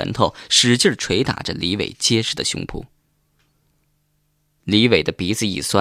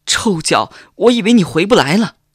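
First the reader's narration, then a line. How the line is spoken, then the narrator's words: Wailing sobs. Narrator (Chinese): 小晴 嚎啕大哭起来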